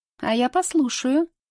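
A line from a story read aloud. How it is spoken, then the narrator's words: Snide. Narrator (Russian): ехидно заявляет Рита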